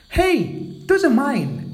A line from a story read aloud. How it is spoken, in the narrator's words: cried Hazel